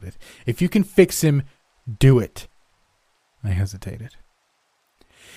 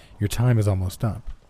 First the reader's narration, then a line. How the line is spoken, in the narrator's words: she replied flatly